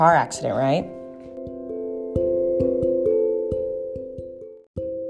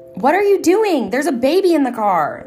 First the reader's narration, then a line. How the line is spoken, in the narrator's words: the woman yelled at me